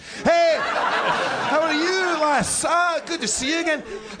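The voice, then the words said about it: Put-on Scottish accent. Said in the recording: “I'm Scottish”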